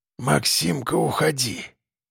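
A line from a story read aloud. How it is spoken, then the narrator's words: Old man whispering again. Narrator (Russian): прошептал дед снова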